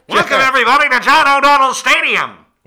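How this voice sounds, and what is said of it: Old-timey 1920s stadium announcer voice. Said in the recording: “dressed up in the 1920s garb ... doing the announcing from a megaphone ... doing that voice ... Just screaming at the crowd”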